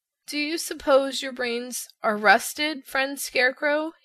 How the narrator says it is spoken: he asked in a weak voice, for his jaws could scarcely move

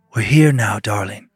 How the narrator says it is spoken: she said, but her voice sounded different, like a whisper

